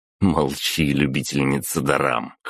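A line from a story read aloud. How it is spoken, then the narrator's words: Smirking snort. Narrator (Russian): хмыкнул я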